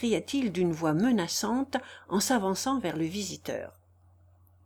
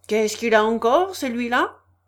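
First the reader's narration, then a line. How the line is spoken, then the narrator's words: Sneering laugh. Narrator (French): ricana Rogojin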